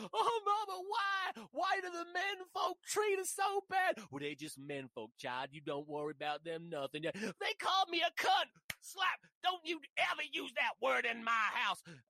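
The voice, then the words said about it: Put-on character voices. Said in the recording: “I don't know why I did that voice.”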